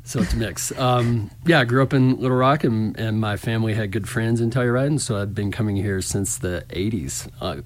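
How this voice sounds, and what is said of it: Slight Southern US accent. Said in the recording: “Thought I detected a little tinge or something there. ... A little southern accent. Maybe with a hint of Texas draw sometimes.”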